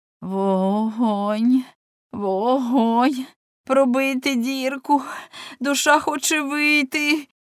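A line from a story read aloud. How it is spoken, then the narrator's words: Moaning. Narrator (Ukrainian): Катліна стогнала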